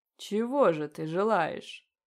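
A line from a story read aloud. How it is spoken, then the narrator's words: Low vibrating demon voice. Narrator (Russian): Низким вибрирующим голосом поинтересовался демон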